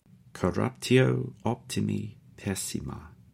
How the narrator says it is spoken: says, very quietly to himself

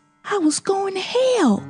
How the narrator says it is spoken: she whispered, trembling

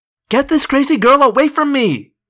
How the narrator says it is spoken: Jeremy Jason cried

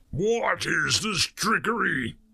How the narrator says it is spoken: He bellowed

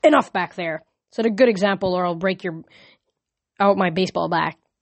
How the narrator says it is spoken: Coach Hedge barked

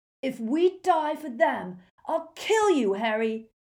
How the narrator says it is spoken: roared Ron's voice

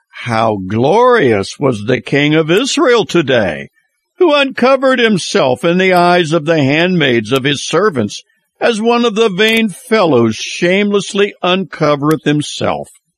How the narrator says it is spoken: scornfully said

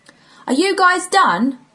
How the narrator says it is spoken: Sam shouted

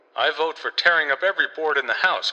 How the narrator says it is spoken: cried Sidney

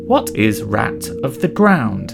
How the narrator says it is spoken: said Brother Philip

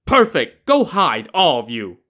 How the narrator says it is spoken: Wu Song shouted

